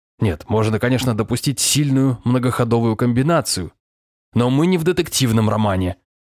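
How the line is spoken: Snapping. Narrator (Russian): огрызнулся Варламов

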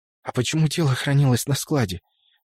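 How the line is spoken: Tearful near-whisper question, sniffling. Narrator (Russian): почти шепотом спросила Дана, в очередной раз всхлипнув и шмыгнув носом

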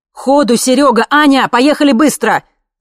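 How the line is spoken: Father shouting. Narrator (Russian): закричал папа

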